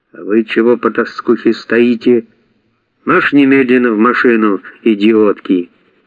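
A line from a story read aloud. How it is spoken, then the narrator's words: Sharply changed tone. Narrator (Russian): сказал уже совершенно другим тоном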